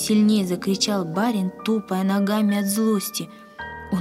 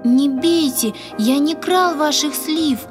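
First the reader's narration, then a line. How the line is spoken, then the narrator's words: Frightened insistent repeating. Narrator (Russian): испуганно твердил Яша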